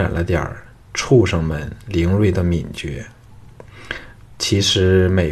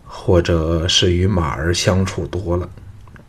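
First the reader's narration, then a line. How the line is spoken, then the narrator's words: Feigned tired, detached. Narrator (Chinese): 项少龙装出了疲倦的神色，淡淡的说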